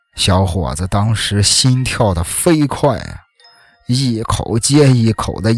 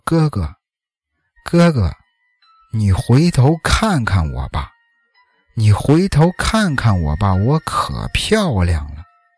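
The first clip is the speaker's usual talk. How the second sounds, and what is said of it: Heavy, seductive ghostly female voice. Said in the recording (Chinese): “传来了几句很重的、很妖艳的话。就听见背后啊，一个女人的声音说”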